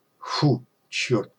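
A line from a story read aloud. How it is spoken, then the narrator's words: Exhaled. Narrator (Russian): выдохнул Шевцов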